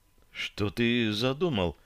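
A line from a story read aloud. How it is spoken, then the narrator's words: Whispered question. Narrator (Russian): Шепотом спросила девушка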